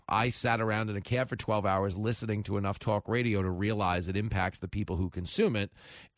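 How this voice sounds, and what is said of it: Mook accent. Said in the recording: “who sounds like this. I'm a fat hippie with a mook accent.”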